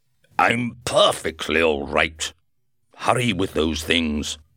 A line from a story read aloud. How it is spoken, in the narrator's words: shouted in an angry voice